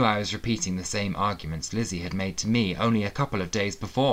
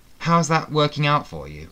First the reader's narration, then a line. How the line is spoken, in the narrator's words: asked